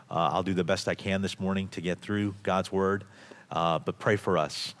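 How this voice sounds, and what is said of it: Sick, flu-affected voice. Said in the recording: “week of having the flu ... While I do feel well, you can hear it in my voice. I may fall into a coughing fit”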